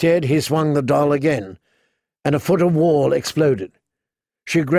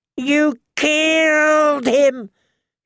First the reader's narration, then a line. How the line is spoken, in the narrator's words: wailed